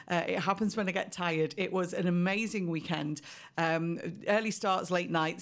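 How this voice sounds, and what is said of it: Slightly croaky voice. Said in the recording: “my voice is a little bit croaky today”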